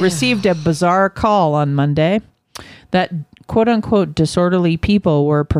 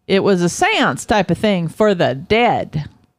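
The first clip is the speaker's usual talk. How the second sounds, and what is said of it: Attempted Philly accent, sounds southern. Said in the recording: “I gave him a little accent there. ... I can't do a Philly accent. ... I feel it's so southern the way he talks.”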